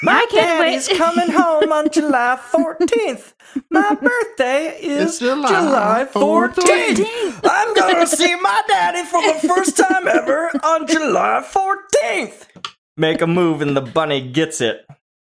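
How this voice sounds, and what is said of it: Malkovich doing a silly little-girl voice. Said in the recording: “Malkovich is reading, little girl voice reading the letter. It's very silly.”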